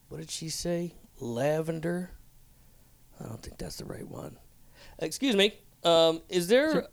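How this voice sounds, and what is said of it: Character voice of a customer. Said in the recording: “This is an impersonation of a man buying paint ... This is my impersonation of a man buying paint”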